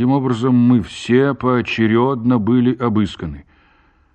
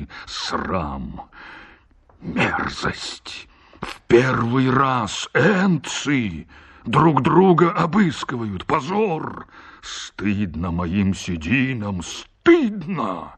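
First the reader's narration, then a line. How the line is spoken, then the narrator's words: Agitated muttering. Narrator (Russian): бормотал, кусая усы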